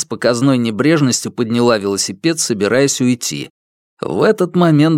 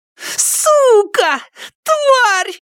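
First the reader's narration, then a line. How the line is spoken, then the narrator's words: Screaming. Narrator (Russian): завопила она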